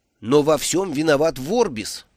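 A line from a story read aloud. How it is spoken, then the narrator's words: Loud exclamation. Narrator (Russian): громко воскликнул Брута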